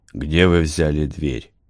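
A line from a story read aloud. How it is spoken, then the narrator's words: Almost gentle. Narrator (Russian): Гард пытался говорить почти ласково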